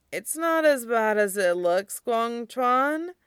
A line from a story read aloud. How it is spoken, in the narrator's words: Tongfan mumbles